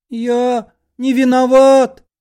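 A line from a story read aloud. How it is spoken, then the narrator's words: Squeaking. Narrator (Russian): запищал Лоханкин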